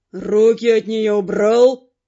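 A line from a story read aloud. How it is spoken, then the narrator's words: Fire mage growling. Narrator (Russian): рыкнул огневик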